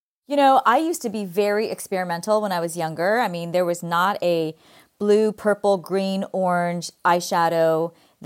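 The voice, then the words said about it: Californian Valley girl accent. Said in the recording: “my Valley girl accent. Grew up in California.”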